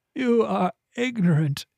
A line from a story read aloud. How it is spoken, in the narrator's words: he wheezed